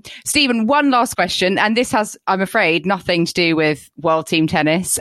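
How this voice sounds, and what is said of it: British accent. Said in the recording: “we're a very British podcast, you can tell that by our accents”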